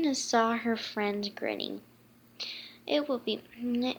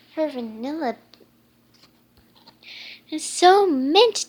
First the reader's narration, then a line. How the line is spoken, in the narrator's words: Dash exclaimed